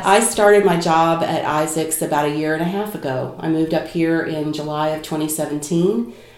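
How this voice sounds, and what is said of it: Kentucky twang accent. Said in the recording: “I certainly have brought my Kentucky twang to Chicago”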